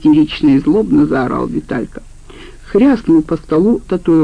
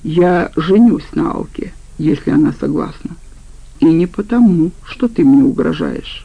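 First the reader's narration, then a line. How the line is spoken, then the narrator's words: Calm, suppressing disgust. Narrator (Russian): Он переборол отвращение к ее братцу и спокойно сказал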